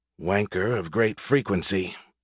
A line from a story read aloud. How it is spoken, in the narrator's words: Perkins muttered under her breath